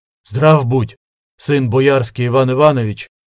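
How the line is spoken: Muffled exhale. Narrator (Russian): глухо выдохнул он

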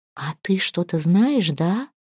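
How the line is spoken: Whispered reply. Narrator (Russian): шептала в ответ Тюра

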